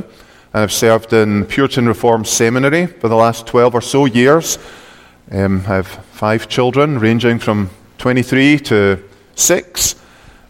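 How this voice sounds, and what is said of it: Scottish accent. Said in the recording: “this strange man is with a very strange accent. ... I come from Scotland, as you might have guessed.”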